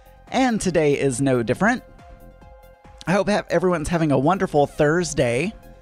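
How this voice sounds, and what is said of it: Breathless, winded speech. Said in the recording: “I ran out of breath.”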